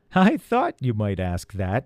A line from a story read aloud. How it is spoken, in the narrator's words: she said with a chuckle